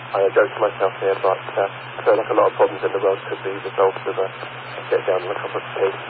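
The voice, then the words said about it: British accent. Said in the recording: “I don't think my accent is the best example of the British accent”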